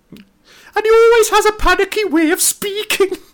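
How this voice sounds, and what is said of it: High-pitched, panicky attempt at Irish accent. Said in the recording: “that's a terrible Chris O'Dowd ... is that your Irish accent? ... I was focusing too much on his high pitched tone than I was on the accent ... the terrible impression”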